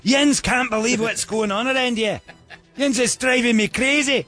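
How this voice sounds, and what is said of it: Put-on Scottish accent. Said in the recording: “that accent ... Oh, man, Scottish”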